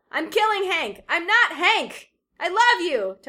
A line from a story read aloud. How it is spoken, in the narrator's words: Toby yells back